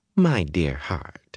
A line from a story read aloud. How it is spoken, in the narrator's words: she almost cooed